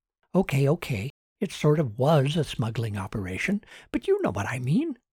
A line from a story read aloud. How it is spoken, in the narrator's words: whispered